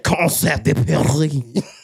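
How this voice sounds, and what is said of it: Mock French accent. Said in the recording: “you gotta put the accent. ... you gotta be French.”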